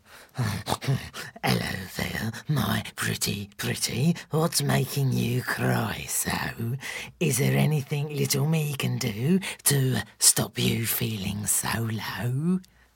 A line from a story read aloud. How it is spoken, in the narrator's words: In his deep, disgusting voice, he said